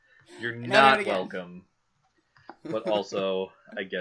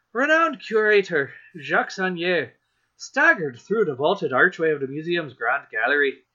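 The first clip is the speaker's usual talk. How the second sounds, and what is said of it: Put-on Irish accent. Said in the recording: “the next accent I pulled was Irish ... an accent I'm pretty good at ... probably doing a very bad one”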